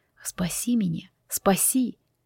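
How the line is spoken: Whispered. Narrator (Russian): Они шептали

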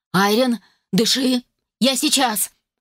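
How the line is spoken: Strained shout. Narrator (Russian): кричал он, подпирая плечом каменную дверь

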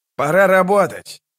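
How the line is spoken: Shouted. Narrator (Russian): крикнул Локон

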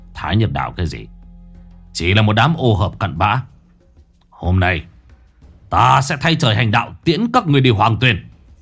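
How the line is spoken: Harsh, menacing voice. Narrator (Vietnamese): Người kia gằn giọng

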